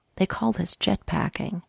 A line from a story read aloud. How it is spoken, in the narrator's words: Frank whispered in Mikey's ear